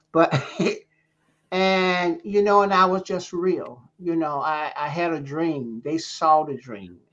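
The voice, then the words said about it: Deep Southern accent. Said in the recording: “I had a deep Southern accent, still do.”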